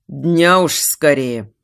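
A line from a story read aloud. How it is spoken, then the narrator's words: Grumbling. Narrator (Russian): проворчал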